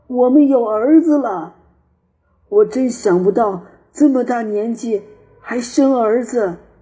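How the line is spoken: Joyful shout. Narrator (Chinese): 这个老农人非常快活，叫道

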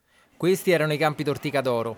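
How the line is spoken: Plain. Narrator (Italian): disse

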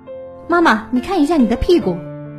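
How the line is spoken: Feigned calm, hurried shout. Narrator (Chinese): 我故作镇定，连忙喊道

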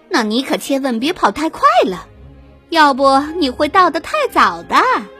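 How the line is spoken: Gloating mockery. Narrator (Chinese): 蜘蛛发发幸灾乐祸的嘲笑道

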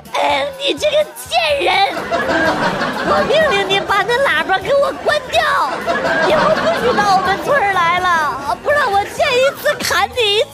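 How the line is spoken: Child, tearful. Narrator (Chinese): 小孩带着哭腔跟我说

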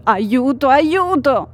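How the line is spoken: Shout. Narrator (Italian): gridava lei

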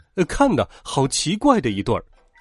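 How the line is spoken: Mocking laughter. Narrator (Chinese): 长颈鹿们开始嘲笑起来

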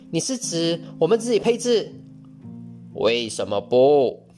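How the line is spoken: Exclaiming. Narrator (Chinese): 他叫道

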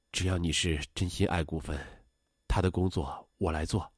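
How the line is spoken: Sighing after silence. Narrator (Chinese): 董丽沉默听完后叹了口气说

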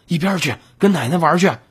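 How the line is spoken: Irritated shout. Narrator (Chinese): 心烦的吼道

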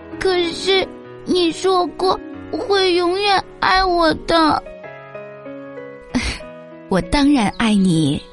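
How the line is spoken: Crying. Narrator (Chinese): 阿丽哭着说

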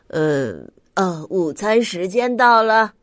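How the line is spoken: Sighing announcement. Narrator (Chinese): 咪咪小老师叹了口气，宣布说

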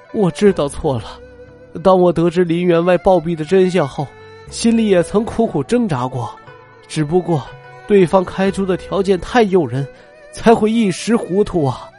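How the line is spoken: Crying. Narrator (Chinese): 王林哭着说

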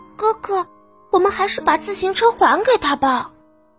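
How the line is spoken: Quiet whisper. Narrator (Chinese): 艾米小声的说

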